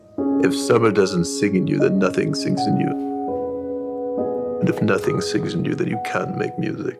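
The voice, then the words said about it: Impression of Bradley Cooper in Maestro. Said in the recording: “I know you have a Maestro impression to share with us. ... My Maestro impression is based purely on the first second of the Maestro ad ... Bradley Cooper”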